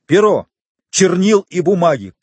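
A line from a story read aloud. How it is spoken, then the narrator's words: Shouting. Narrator (Russian): крикнул в свою очередь Фернан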